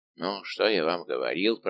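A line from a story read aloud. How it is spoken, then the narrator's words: Grumbling. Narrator (Russian): проворчал Безмо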